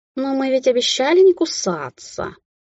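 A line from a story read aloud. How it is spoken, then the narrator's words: Lazy drawl. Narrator (Russian): лениво растягивая слова, произнес Радослав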